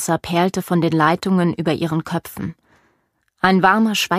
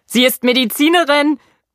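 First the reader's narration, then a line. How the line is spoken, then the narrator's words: Shouting over loud music. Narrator (German): brüllte er Sophie über die Bässe und das Geschrei der Meute hinweg zu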